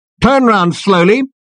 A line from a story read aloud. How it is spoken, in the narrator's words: barked the voice